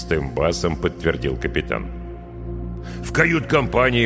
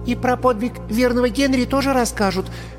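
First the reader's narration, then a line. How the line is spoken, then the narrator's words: Schoolgirl's shy squeak. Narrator (Russian): пискнула голенастая школьница, покраснев от собственной смелости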